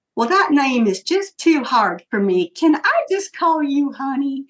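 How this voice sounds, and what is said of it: Put-on Southern accent. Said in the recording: “he does in this cutest little Southern accent”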